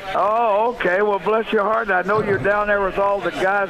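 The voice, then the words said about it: Mississippi drawl. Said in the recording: “I recognize that Mississippi drawl”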